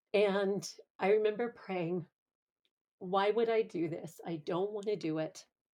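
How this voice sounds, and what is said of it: Teary, emotional voice. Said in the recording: “I'm a little teary”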